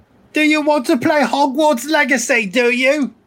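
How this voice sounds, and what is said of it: Badly done put-on accent. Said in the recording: “the worst accent ever.”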